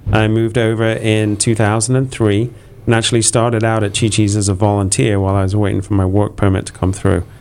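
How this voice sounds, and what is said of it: English accent. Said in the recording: “the funny accent, I'm actually originally from England”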